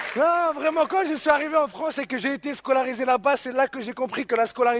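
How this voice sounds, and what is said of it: Usual voice. Nothing is said of it.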